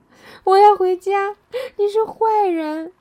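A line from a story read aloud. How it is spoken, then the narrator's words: Crying, screaming. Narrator (Chinese): 蒙娜只是一个劲儿的哭，最后她大叫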